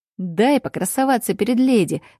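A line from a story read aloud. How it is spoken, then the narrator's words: Laughing. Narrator (Russian): рассмеялся Дербер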